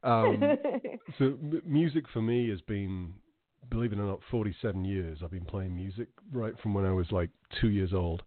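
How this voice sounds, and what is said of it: Speaker's own weird accent. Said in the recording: “my weird accent”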